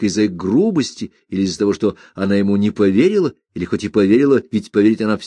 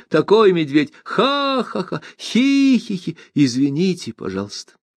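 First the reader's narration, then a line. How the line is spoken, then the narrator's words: Peals of laughter. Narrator (Russian): рассыпчато смеялась над словами Гофрата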